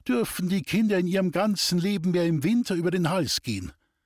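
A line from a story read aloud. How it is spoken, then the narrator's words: Exclaiming. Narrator (German): rief sie aus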